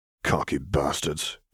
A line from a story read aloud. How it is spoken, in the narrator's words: growled